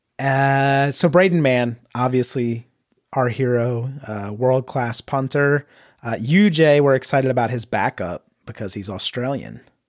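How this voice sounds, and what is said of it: Congested voice from a cold. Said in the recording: “You can probably hear in my voice. I'm recovering from, or maybe I'm just suffering from a cold at the moment.”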